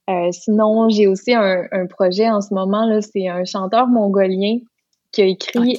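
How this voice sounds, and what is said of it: Lac Saint-Jean Quebec French accent. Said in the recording (French): “j'ai bien retrouvé mon accent du lac Saint-Jean”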